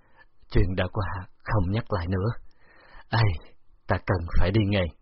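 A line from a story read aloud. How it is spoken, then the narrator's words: Lifeless, defeated sigh. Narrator (Vietnamese): Âm Hiển Hạc thở dài, giọng nói không còn sinh khí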